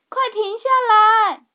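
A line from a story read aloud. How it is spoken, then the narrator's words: Shouting loudly. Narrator (Chinese): 茉莉也大声叫喊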